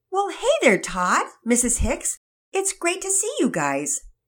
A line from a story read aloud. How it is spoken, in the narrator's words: Daddy Peters answered excitedly